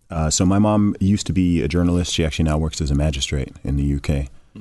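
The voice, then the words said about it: American-sounding accent, not British. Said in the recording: “my accent doesn't sound British, in fact, because I went to an American school and all my teachers were American”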